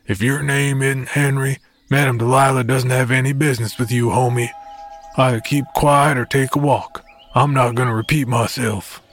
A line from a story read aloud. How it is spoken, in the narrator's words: he growled